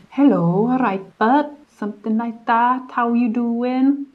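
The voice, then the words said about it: Weak imitation of Welsh accent. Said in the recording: “The Welsh accent is like ... I can't really do it very well”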